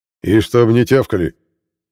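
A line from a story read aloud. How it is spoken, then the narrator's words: Harsh warning. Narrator (Russian): предупредил он жестким голосом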